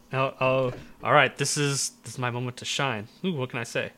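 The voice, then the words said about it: Raspy, sick-sounding voice. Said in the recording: “Raspy Voice ... still sick”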